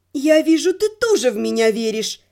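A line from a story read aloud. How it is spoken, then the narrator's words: Gloomy. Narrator (Russian): мрачно сказала я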